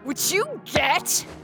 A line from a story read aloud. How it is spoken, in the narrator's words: She shouted